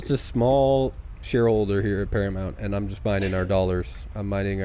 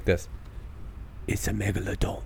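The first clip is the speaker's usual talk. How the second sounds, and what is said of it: Jason Statham impression, London accent. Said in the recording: “a Klingon with that nice South London or East London accent... I can do a Jason Statham impression... That's pretty good.”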